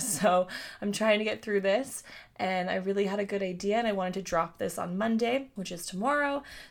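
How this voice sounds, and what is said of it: Slightly scratchy voice. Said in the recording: “My voice is a little scratchy.”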